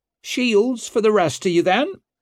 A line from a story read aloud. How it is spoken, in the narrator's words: cried Isern